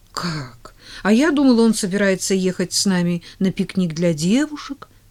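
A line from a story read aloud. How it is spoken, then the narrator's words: Exclamation. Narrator (Russian): воскликнула она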